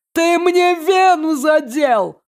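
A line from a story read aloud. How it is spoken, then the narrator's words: Shouting. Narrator (Russian): орал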